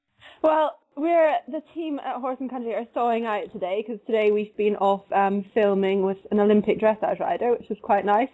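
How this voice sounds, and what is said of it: Scottish accent. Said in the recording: “your lovely English accent... Scottish accent... it's turned a little bit, I think, since you moved to London”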